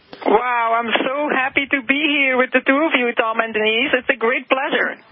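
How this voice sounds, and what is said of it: Belgian accent. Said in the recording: “There's that cute little Belgian accent we love so much.”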